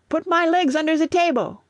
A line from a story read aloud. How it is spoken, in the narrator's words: shouted